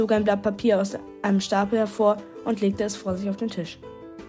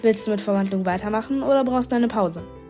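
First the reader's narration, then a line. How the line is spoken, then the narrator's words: Plain question. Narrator (German): fragte Mr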